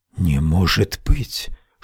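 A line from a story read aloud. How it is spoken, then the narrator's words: Whispered. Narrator (Russian): шепнула она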